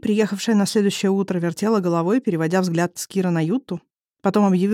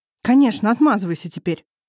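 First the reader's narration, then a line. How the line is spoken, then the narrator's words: Snorting. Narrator (Russian): фыркнула Ютта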